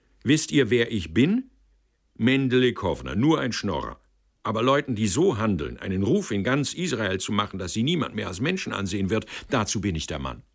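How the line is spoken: Called out. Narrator (German): rief er

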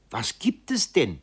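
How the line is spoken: Nurse calling out. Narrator (German): Die Schwester rief

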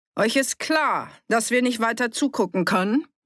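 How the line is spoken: Calling out. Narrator (German): rief

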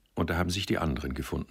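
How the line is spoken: Plain. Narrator (German): sagt er

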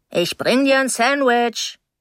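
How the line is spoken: Calling out. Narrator (German): rief die Stimme Mrs

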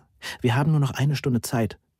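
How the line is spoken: Breathless. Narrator (German): sagte atemlos

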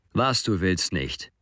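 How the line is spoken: Groaning. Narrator (German): stöhnt

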